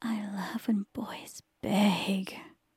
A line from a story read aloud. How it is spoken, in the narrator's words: she hissed